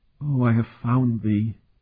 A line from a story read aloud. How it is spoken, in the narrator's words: she breathed